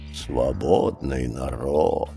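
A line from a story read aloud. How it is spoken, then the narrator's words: Grumble. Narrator (Russian): проворчал Ка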